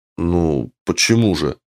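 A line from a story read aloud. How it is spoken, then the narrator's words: Strained, forced. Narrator (Russian): Выдавил кое-как из себя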